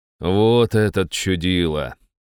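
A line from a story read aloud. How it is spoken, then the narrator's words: Snort. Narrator (Russian): хмыкнул я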